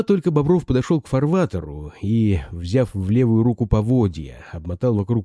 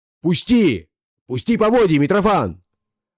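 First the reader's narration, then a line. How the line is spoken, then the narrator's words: Shout. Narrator (Russian): крикнул он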